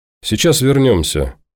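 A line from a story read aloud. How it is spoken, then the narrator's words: Soft. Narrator (Russian): мягко добавила Леся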